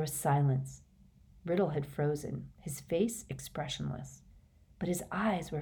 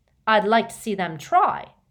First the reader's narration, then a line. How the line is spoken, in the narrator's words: sneered Riddle